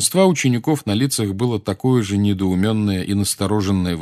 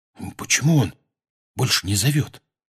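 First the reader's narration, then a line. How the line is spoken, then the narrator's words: Whispered. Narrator (Russian): прошептал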